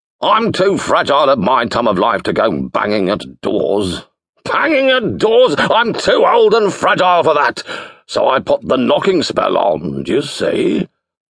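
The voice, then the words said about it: Booming, bellowing old wizard voice. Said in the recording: “in a booming voice ... he bellowed, as if talking into a gale”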